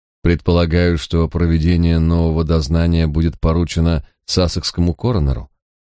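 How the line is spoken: Plain. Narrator (Russian): спросил Придис-младший

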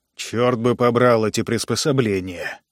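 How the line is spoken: Grumbling. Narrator (Russian): ворчал Глен

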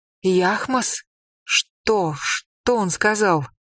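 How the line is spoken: Nervous fearful stuttering. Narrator (Russian): Она нервно заикалась, глаза ее широко раскрылись от страха

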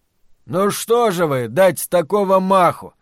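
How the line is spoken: Sudden wailing yell. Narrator (Russian): Даже не закричал, а завопил вдруг Монти

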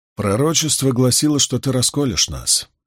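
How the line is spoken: Gloomy remark. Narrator (Russian): мрачно заметил Ган

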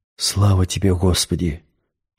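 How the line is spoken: Whispering. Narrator (Russian): прошептал Максим

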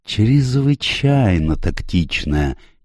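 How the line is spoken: Unctuous oily voice. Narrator (Russian): елейным голосом заговорил Пуаро

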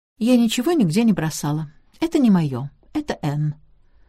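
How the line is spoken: Carefree tone. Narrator (Russian): девушка беспечным тоном произнесла

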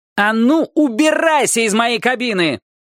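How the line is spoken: Angry yell. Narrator (Russian): заорал он

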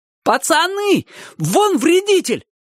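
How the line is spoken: Sudden shout. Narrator (Russian): вдруг крикнул кто-то

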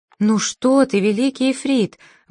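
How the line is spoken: Exclamation. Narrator (Russian): воскликнула Цветок в ночи

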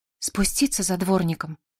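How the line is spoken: Trembling voice. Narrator (Russian): спросила Коломбина дрожащим голосом

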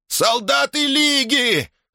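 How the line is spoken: Shouted. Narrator (Russian): закричал Вельк Вен

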